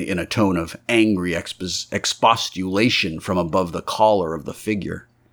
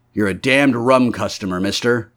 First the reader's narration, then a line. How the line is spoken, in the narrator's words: said Mr